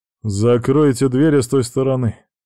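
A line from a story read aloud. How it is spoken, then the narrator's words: Rough. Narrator (Russian): произнес Томми грубо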